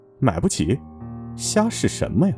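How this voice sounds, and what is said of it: Contemptuous quiet muttering. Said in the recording (Chinese): “鄙夷的小声嘀咕”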